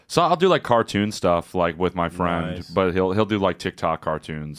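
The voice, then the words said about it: Warm deep radio voice. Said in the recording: “a nice warm voice ... radio voice ... He sounds like Buzz Lightyear.”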